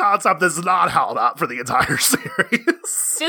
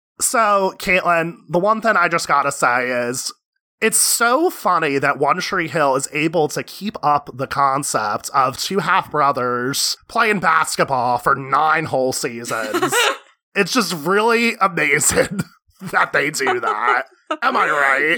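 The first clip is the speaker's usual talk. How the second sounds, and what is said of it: Sarcastic delivery. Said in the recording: “that was sarcasm”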